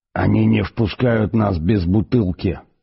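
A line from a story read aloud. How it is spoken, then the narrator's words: Hiss. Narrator (Russian): прошипел он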